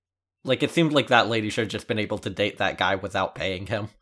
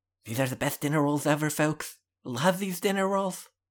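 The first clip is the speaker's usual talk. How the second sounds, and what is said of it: Donald Trump impression. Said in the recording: “Do a Trump impression the whole date. ... he'll look past that Trump impression.”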